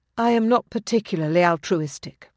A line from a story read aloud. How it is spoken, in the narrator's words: she said quietly